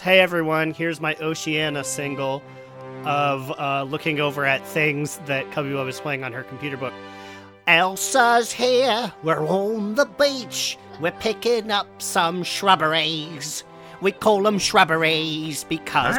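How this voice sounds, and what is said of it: Sings in put-on Australian accent. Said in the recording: “Can you sing in an Australian accent”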